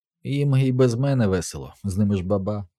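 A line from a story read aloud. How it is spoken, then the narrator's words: Plain. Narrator (Ukrainian): сказав я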